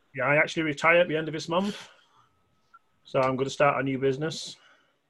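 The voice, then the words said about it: British accent. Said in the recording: “I love your accent. ... He is from the UK.”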